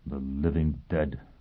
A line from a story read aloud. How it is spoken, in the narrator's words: he mumbled